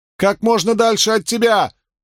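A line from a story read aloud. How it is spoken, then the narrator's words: Loud yell. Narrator (Russian): завопила Авиенда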